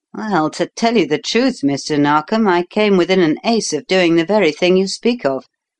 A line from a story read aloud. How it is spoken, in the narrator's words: replied Cleek